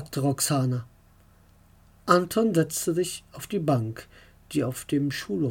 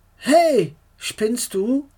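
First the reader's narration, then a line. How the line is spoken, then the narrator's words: Angry call. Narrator (German): rief Anton sauer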